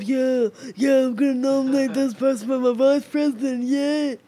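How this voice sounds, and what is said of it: Imitates another person's voice. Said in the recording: “That's your Trump impression.”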